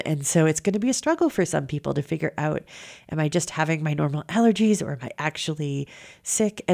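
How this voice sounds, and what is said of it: Congested, stuffy-nosed voice. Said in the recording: “You can probably hear in my voice that I am congested, and that's because of allergies.”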